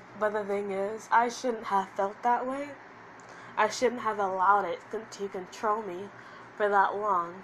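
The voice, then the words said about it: Crying, voice cracking. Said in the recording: “I'm crying too much here, and you can tell that my voice is cracking ... the tears are coming out”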